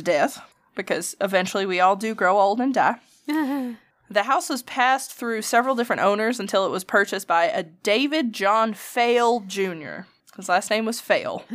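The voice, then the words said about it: Alabama accent. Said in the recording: “we're talking about Alabama and I'm drinking, so my accent's coming out a little bit. I don't know if you've noticed. ... I have.”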